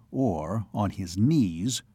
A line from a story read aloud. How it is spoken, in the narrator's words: said Reim